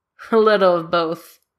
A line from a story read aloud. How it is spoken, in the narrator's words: Danny says with a chuckle